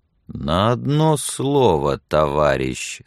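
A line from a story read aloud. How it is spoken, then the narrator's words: Slow and quiet. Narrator (Russian): сказал Билли медленно и тихо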